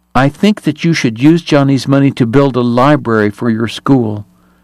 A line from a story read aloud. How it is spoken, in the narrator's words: she told the priest firmly